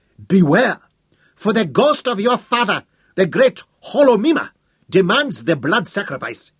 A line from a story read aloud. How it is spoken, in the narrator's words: he shrieked